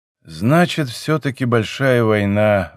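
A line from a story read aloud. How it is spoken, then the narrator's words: Sigh. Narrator (Russian): вздохнул он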